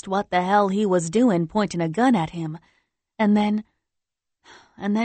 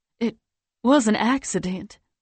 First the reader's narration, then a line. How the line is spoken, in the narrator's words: he says over and over in a quiet voice